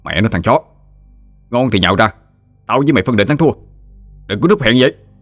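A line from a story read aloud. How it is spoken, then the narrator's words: Irritated man shouting. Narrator (Vietnamese): Anh bực dọc quát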